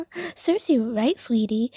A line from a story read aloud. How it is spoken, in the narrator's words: Josie laughed